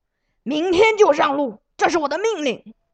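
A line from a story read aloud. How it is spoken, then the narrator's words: Angry roar. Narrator (Chinese): 朱王礼觉得命令受到了拂逆，立时大吼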